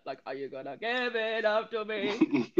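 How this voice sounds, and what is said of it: Imitates another person's voice, spot-on. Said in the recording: “That was a spot on impersonation.”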